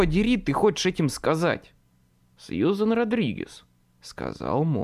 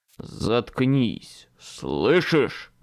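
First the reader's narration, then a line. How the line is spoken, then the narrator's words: Growling. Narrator (Russian): прорычал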